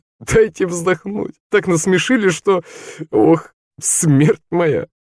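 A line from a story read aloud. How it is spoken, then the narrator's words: Laughing speech. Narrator (Russian): Он смеялся и говорил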